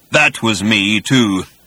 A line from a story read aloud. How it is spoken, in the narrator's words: continued the voice in a low, menacing rumble